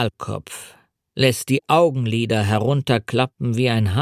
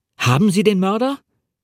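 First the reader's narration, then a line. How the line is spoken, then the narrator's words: Called out. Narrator (German): rief ich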